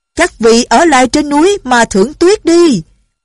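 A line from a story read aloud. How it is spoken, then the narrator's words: Shouting again. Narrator (Vietnamese): Lệnh Hồ Xung lại la lên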